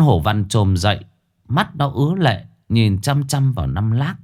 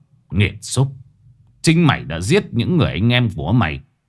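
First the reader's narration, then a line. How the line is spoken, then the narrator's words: Harsh, menacing. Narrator (Vietnamese): gằn giọng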